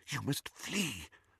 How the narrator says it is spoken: whispered Professor McGonagall

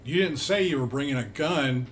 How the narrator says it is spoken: Becca gasped

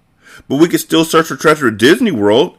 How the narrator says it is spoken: exclaimed Nikki

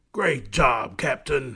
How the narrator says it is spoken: growled

